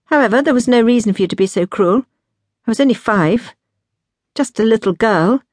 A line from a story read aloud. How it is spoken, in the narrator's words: finished in a sharp tone